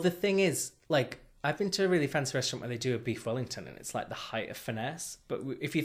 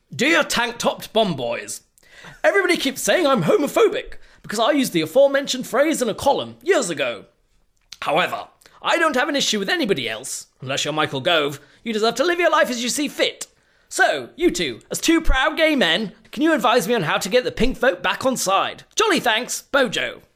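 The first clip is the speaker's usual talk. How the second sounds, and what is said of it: Imitates another person's voice. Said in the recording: “my Boris Johnson impression”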